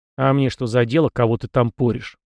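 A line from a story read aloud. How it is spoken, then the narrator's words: Scornful snort, young man. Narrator (Russian): презрительно фыркнул парень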